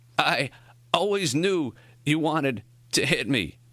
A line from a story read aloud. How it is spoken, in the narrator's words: Morrie gasped